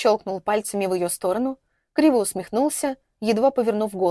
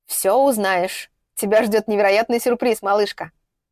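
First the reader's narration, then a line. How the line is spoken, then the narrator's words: Snorting half-cough chuckle. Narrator (Russian): Он хмыкнул, то ли кашлянул, то ли хохотнул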